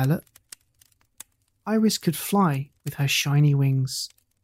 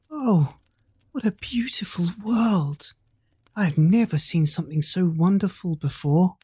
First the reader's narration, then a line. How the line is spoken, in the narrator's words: Iris gasped